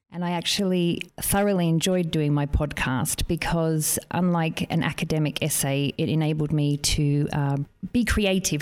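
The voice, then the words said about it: Noticeable non-British accent. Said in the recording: “As you can hear from my accent, I'm not of British descent.”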